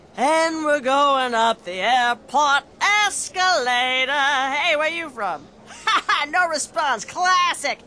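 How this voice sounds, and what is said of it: Lounge singer character voice. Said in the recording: “this is my impression of a traveling lounge singer”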